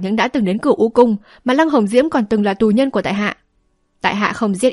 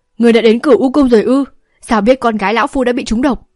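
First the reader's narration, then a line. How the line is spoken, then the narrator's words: Pale, shouting. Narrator (Vietnamese): La Tu tái mặt quát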